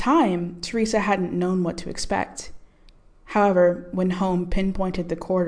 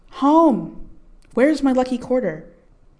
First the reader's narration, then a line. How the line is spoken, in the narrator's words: the girl had cried out